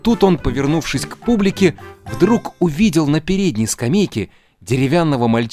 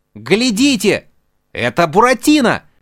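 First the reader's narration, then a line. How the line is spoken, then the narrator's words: Shouted. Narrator (Russian): закричал Арлекин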